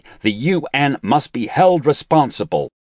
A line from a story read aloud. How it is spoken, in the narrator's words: he shouted hysterically